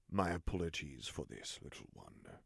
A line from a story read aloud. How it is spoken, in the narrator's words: Vader rumbled softly